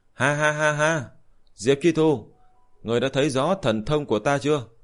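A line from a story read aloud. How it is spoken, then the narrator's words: Loud laughter. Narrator (Vietnamese): Chuẩn Đề đạo nhân cười lớn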